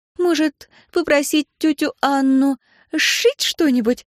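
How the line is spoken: Uncertain suggestion. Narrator (Russian): неуверенно предложила Анастасия

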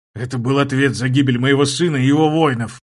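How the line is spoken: Hissed through teeth. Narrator (Russian): сквозь зубы прошипел герцог

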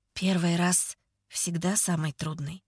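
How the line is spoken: Gentle, smiling. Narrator (Russian): говорит он, мягко улыбаясь

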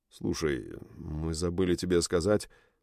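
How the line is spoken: Mumbling. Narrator (Russian): забормотал Буф

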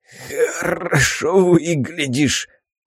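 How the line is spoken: Hoarse wheeze. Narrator (Russian): прохрипел

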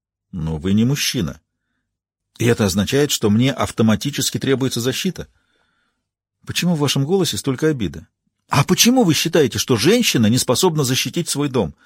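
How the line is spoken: Sigh. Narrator (Russian): Он вздохнул

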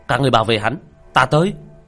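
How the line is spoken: Leader's sharp shout. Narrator (Vietnamese): một người cầm đầu quát lên

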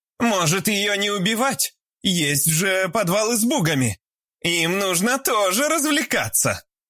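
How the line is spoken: Sudden shout from crowd. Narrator (Russian): Вдруг крикнула Альбина из толпы

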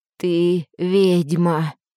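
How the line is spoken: Hoarse rasp. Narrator (Russian): прохрипел он

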